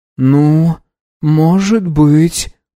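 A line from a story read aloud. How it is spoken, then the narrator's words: Drawn-out, bewildered. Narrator (Russian): протянула Баджи, но было видно, что она пребывает в растерянности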